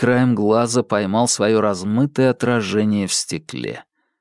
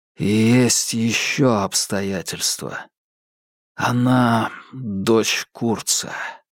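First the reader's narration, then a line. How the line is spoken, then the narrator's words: Breathy exhale. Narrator (Russian): выдохнул Марк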